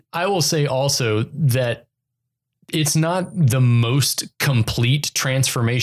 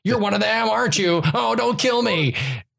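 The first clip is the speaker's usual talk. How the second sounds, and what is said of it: Higher-pitched frantic American voice. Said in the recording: “British accent to American accent ... the silken, like that Severus Snape, Alan Rickman sound as this American hostage who's terrified out of his mind. He pitches it a little higher. And so it's much more frantic.”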